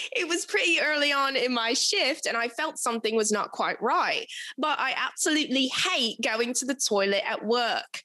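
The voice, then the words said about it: Put-on British accent. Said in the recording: “Do I have to read this in a British accent now? ... I think so. Nobody asked for it, but here it is.”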